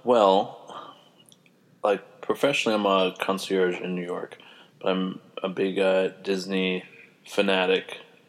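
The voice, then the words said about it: Congested voice from a cold. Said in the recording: “I have a little bit of a cold,”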